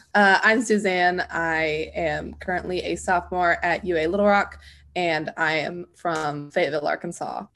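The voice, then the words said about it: Voice affected by illness. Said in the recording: “Excuse my voice. I am recovering from a cold.”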